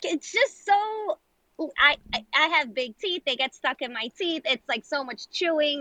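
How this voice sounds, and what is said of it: New York accent, raised voice. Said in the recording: “your New York accent comes out ... she's raising her voice”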